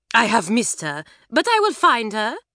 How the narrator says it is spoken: cried Mamselle, and she beamed

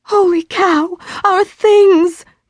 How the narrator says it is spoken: gasped

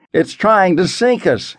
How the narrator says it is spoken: Henry cried above the din

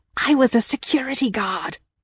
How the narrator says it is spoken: whispered

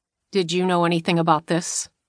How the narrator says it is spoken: he asked their father, his voice flat

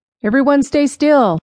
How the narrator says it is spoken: Jerry cried

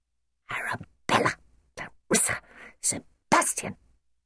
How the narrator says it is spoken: hissed Nanny

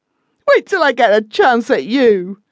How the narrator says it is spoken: sobbed Ralph

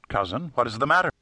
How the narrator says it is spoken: asked Will quickly

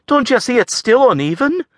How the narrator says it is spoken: Avril blurted

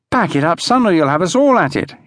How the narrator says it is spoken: pleaded

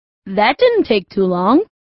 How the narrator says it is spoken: Ernie said cheerfully

